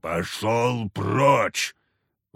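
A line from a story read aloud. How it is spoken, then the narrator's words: Loud barking shout. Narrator (Russian): Уже не проворчал, а гаркнул Харисим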